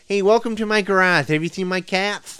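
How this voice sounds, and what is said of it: Marc Maron impression. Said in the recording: “impersonate people on our sister shows. Like, you can be Joe Rogan and I'll be Mark Maron on our sister show, you know, WTF”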